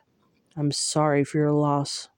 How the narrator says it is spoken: Tamlin murmured

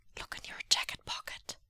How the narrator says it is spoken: his brother whispered

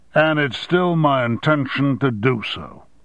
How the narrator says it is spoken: said Armstrong firmly

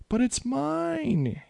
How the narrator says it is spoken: whined

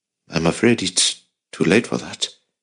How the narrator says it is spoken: Jacob sighed, surprised but also intrigued

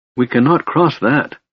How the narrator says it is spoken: said Lorana, her voice trembling

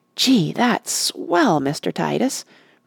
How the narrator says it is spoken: breathed Rush

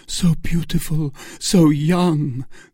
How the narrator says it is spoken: cried Felton

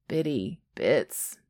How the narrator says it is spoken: Jack groans

